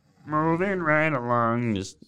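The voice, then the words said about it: Kermit the Frog impression, slightly too deep. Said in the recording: “That's my kind of Kermit. ... That was okay. It was a little too ... deep.”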